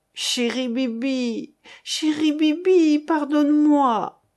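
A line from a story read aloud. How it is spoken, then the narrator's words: Moaning. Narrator (French): gémissait-il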